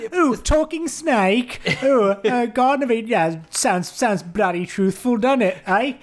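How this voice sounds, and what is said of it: Imitated generic British accent. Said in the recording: “Christopher Hitchens' impression there ... my impression of generic British atheist”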